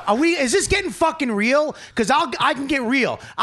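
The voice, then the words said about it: Angry yelling. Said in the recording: “Why are you yelling at me?”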